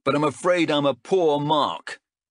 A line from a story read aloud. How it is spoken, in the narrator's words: he yelled after the retreating children